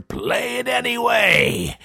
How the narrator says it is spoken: the Pooka roared

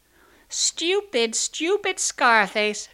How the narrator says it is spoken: shrieked the sisters

